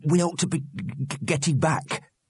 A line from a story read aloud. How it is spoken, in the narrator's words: said Wobbler, his voice shaking